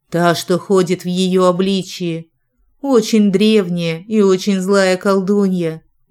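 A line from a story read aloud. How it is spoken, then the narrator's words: Grim explanation. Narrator (Russian): мрачно пояснила я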